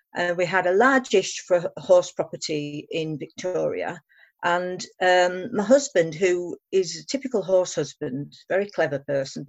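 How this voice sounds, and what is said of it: British, non-Australian accent. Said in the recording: “As you can probably tell from my accent, we're not actually originally from Australia, and we actually now live back in the UK.”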